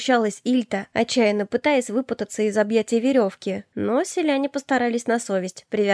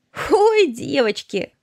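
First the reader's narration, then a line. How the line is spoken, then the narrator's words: Laughing. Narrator (Russian): рассмеялась чернявая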